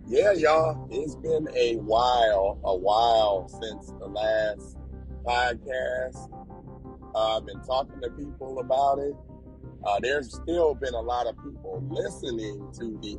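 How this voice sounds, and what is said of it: Strained voice recovering from voice loss. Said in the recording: “my voice has been messing up for the past, probably week. I lost my voice ... So I'm finally getting back to my voice coming back.”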